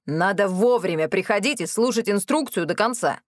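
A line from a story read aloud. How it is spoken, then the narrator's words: Gruff snarl. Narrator (Russian): рыкнула Милота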